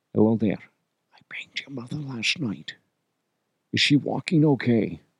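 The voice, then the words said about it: Whispered Sean Connery impression. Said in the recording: “B. Connery ... Unless I whisper it in your ear”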